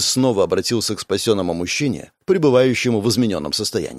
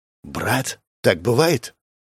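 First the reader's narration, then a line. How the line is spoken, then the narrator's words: Whispered question. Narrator (Russian): поинтересовался Денис шепотом у своей команды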